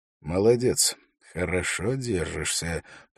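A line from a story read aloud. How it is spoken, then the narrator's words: Quiet. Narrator (Russian): произнес он тихо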